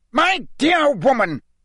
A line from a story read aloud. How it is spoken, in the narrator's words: roared Fudge, who likewise looked angrier than Harry had ever seen him